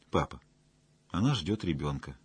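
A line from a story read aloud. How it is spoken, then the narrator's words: Quiet reply. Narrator (Russian): тихо ответил Ташков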